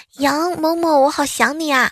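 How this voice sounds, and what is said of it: Loud little girl's voice. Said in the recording (Chinese): “一个小女生呢，忽然用响亮的声音说”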